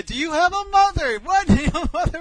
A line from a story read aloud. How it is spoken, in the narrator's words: she's yelling at this guy